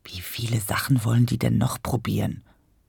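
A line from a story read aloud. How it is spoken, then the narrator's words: Murmur. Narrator (German): murmelte Mama nach einer Weile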